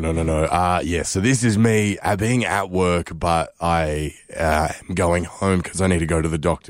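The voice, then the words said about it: Raspy voice that keeps cutting out. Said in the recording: “My voice, I sound like the receptionist from Monsters, Inc. ... My voice keeps dropping. It's like I'm getting bad reception from my voice.”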